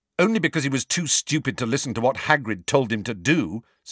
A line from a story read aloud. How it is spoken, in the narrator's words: said Harry angrily